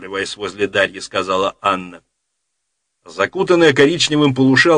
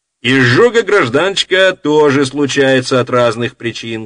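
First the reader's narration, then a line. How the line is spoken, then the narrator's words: Loud interruption. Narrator (Russian): громко перебила ее Дарья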